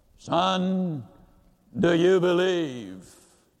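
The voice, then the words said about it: Deep voice. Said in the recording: “deep voice”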